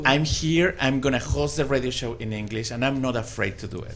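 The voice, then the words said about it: Thick Latin American-accented English. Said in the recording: “my English was horrible ... I had a big accent ... my accent is very thick ... I have an accent between Salma Hayek and Sofia Vergara”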